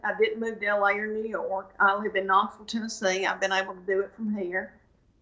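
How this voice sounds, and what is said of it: Heavy Southern country accent. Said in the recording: “I'm really country, and I don't try to hide it ... I just happen to have a heavy accent”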